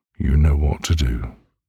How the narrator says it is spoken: says flatly, his voice devoid of emotion

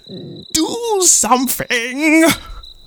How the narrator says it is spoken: screamed the chief

